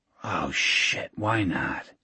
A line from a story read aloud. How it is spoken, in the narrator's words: whispered